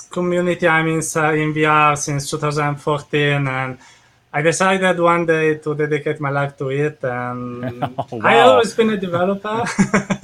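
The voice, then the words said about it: Italian accent. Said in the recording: “your beautiful accent ... you are from Italy”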